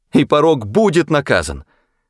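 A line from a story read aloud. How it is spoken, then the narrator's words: Overwrought emotional exclamation. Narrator (Russian): воскликнула она, уже почти теряя волю над своими чувствами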